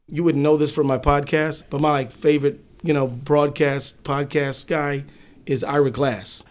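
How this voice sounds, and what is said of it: Usual voice. Nothing is said of it.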